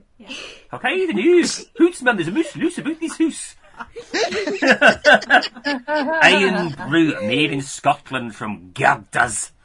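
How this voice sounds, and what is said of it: Put-on Scottish accent. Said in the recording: “I'll do it with a Scottish accent. ... Not in the Scottish accent”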